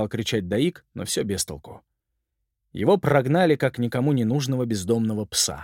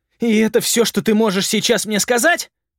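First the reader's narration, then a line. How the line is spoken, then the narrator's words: Yelling. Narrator (Russian): завопил Даик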